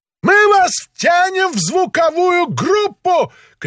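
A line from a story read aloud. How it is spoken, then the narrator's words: Shout. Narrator (Russian): крикнул он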